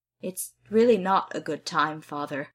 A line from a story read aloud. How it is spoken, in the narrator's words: Gil says through gritted teeth